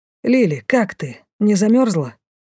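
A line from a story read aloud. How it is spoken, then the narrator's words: Sympathetic, hurried question. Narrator (Russian): Участливо поинтересовался Лей, торопливо пробегая мимо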